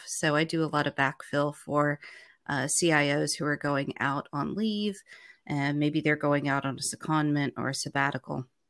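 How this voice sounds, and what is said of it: American English accent. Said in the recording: “lived in the U.S., obviously from the accent, that's where I'm originally from”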